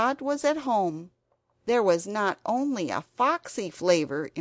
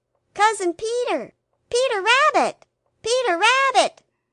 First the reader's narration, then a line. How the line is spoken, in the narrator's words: shouted Benjamin Bunny